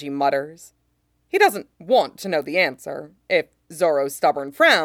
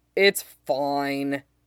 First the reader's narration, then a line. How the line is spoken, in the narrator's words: Zoro grumbles